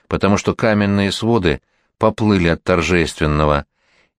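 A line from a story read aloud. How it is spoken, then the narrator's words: Whisper. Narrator (Russian): еще раз прошептал князь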